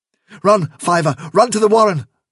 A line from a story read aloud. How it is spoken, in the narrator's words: cried Hazel